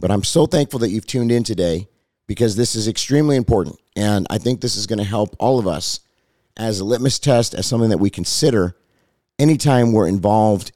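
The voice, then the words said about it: Hoarse, slightly strained voice. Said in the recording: “I sound a little under the weather ... I'm a little bit hoarse because I preached three different times this last week ... my voice is still recovering”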